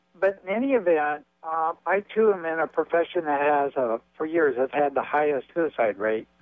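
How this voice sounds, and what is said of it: Hoarse voice. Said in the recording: “I apologize for my hoarse voice.”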